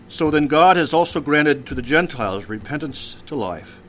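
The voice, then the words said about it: Weak put-on Yiddish accent. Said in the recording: “I can somehow imagine them speaking in this Yiddish accent... that's my lame attempt at a Yiddish accent.”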